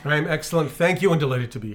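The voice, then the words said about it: Polished radio announcer voice. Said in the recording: “you've got your radio voice on today”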